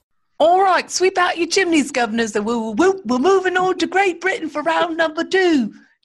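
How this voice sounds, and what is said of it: Exaggerated British accent impression. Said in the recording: “my best British impression ... that sounded like what's his face from Mary Poppins”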